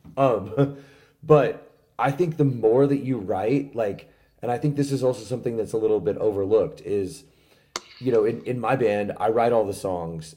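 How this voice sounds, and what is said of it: Slightly hoarse, worn-out voice. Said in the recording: “my voice is a little shot right now, like, from this past weekend”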